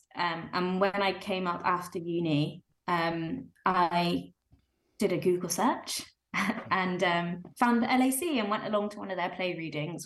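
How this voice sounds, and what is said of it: Southern English accent. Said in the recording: “As you maybe can tell from my accent, I'm not from around here. I'm from the South Coast.”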